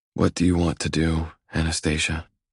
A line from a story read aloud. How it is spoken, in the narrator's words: I whisper